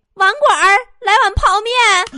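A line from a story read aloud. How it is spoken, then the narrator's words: Sudden shout. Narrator (Chinese): 突然有个哥们儿……就喊了一句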